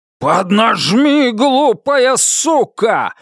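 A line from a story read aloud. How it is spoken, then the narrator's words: Yelling. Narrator (Russian): заорал Китон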